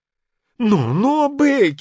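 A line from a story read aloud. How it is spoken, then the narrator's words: Groaning. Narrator (Russian): застонал Адамс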